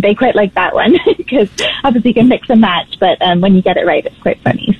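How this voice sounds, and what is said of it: British accent, fast speech. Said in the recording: “you've picked up some of that British accent and you speak rather quickly”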